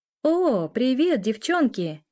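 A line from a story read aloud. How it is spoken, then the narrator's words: Amazed exclamation. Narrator (Russian): С изумлением воскликнула она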